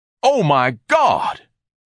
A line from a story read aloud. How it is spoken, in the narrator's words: Ignatius bellowed